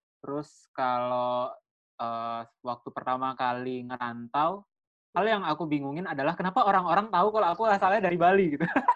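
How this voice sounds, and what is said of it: Balinese-accented Indonesian. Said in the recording (Indonesian): “Logat, logat Bali. ... iya, logat kamu ya”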